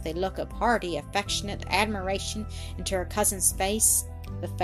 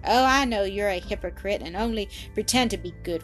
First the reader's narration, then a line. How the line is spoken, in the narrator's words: returned Annis laughingly